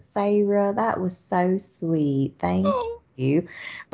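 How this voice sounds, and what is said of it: Put-on Southern US accent. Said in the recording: “she would say in a Southern accent”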